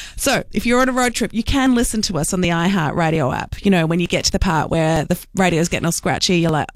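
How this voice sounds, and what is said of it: Usual voice. Nothing is said of it.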